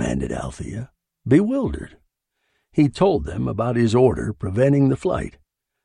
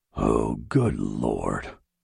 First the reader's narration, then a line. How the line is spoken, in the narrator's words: he groaned